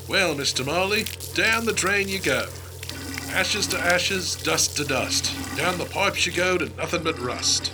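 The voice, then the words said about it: Very poor put-on English accent. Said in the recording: “These are the worst English accents I've ever heard.”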